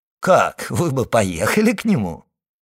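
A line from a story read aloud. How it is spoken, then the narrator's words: Laughing. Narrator (Russian): сказал, смеясь, Дебре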